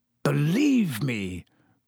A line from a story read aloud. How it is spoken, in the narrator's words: croaked Black